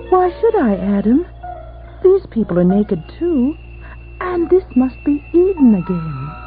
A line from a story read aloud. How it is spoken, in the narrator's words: Eve said coolly